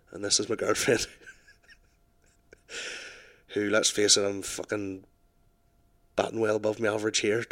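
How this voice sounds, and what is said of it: Put-on Northern Irish accent. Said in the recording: “sexy Northern Irish ... with my sexy accent”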